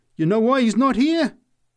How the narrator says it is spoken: She answered triumphantly

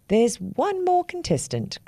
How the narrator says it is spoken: cried the big black crow

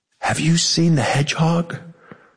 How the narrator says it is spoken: would ask sleepily it was never her real voice

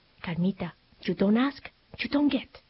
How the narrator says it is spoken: softened for just a moment as she whispered

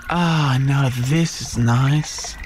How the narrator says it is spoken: sighed the Yowie

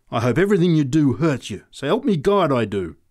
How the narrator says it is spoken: she said savagely

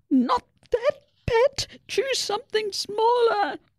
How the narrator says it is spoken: Mabel's mum squeaked

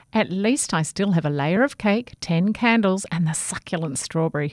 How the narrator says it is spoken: he said

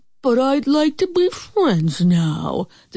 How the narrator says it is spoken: the sorry wolf sighed

